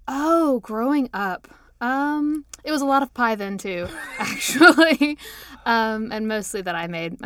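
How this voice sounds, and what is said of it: Southern Kentucky accent with lilt. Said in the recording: “the lilt in your accent ... a real Southerner, a Kentuckian”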